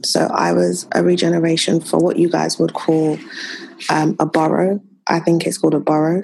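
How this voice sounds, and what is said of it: British accent. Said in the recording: “if they haven't picked up by your accent, you're talking about government in the UK”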